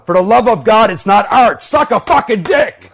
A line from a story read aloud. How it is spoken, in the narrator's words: I yelled out